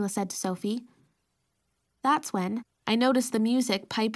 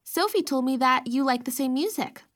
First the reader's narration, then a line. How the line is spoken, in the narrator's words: I added quickly